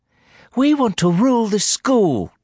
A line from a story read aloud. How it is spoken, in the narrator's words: Daniel cried suddenly